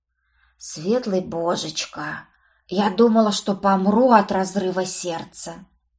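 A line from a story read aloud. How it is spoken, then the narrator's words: Guilty whisper. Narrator (Russian): раздался виноватый шепот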